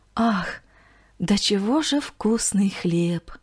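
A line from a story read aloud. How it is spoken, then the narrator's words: Sorrowful sigh. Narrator (Russian): Горестно вздохнула сердобольная женщина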